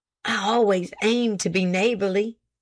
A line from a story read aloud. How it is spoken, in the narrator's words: said he, nervously lowering his voice, for he was conscious of his wife